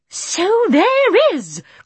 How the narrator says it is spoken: cried the courtiers, as they all suddenly noticed the star for the first time

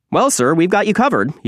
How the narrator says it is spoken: he said brightly

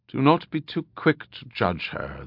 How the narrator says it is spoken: the druid said softly

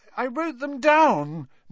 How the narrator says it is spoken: Neville was saying tearfully

